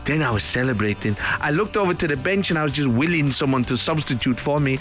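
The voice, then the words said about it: Vague foreign accent, part French-Spanish. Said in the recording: “A non-specific foreign accent, that. Part French, part Spanish.”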